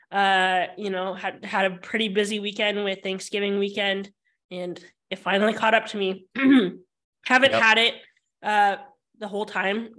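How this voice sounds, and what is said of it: Sick-sounding voice. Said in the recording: “I finally got COVID. You probably can hear it in my voice.”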